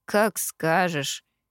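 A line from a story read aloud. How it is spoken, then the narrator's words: Mutter. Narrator (Russian): пробормотал Кит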